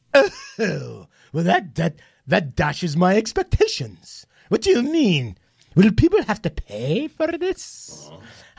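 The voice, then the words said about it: Regal, queenly voice. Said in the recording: “She talks like a queen”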